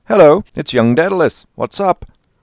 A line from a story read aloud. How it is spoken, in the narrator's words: he called out